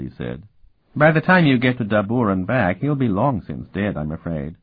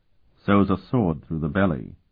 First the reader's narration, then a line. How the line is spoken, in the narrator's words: Sparhawk said grimly